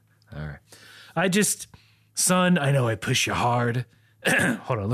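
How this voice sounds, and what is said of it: Usual voice. Nothing is said of it.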